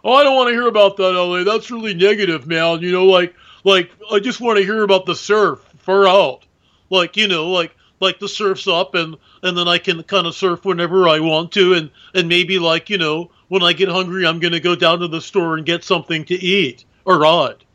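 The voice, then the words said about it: Imitates a Malibu surfer guy's voice. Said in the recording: “There's actually a guy in Malibu who talks exactly like that. I'm imitating him to the nines”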